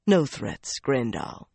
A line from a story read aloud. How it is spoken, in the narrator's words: he replied calmly